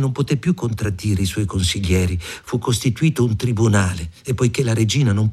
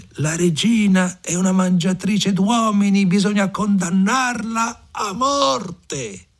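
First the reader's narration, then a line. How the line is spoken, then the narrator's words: Crowd shouting loudly. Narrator (Italian): tutta la gente gridò ad alta voce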